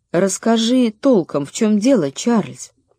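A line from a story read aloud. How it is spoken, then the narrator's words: Quiet mother. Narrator (Russian): Мама тихо сказала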